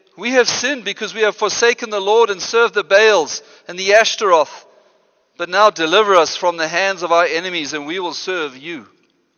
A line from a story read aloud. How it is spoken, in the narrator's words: They cried out to the Lord and said